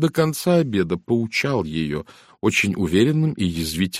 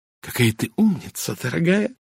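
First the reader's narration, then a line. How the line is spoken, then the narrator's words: Whispered. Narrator (Russian): прошептала леди Энкейтл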